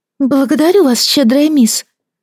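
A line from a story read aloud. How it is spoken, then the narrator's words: Exclaiming. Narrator (Russian): воскликнула попрошайка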